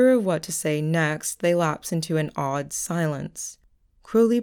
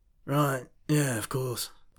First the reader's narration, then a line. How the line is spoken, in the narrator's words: Crowley mumbles